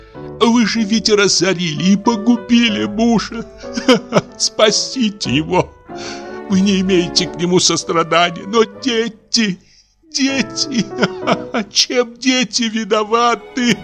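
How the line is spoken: Sobbing. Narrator (Russian): Паша сама зарыдала

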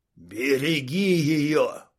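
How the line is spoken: Wheezing. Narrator (Russian): Прохрипел

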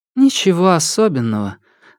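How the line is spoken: Sigh. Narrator (Russian): вздохнула

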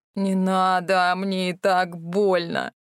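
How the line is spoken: Hoarse pained wheeze. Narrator (Russian): Просипел бледный, как мел Морис

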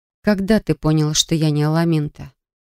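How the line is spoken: Quiet question. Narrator (Russian): спросила тихо

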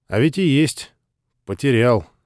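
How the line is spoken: Angry grumble. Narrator (Russian): сердито проворчал Панов

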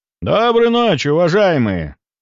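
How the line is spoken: Loud greeting. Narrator (Russian): Громко поприветствовал я сидящих за столиками людей

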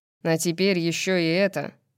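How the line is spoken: Grumbling. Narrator (Russian): проворчал Тарион

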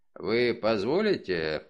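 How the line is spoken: Mumbled. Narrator (Russian): пробормотал он

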